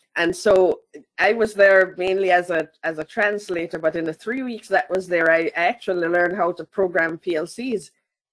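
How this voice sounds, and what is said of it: Mild, softened Jamaican accent. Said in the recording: “my Jamaican accent is a little bit levelized”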